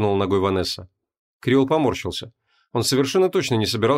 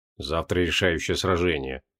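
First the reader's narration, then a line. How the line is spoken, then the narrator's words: Gloomy. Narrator (Russian): мрачно ответил Креол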